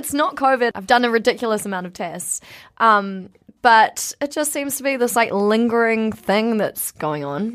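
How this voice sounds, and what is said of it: Partly lost, hoarse voice. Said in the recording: “is missing one voice ... I am missing one voice or areas of my voice ... my voice isn't”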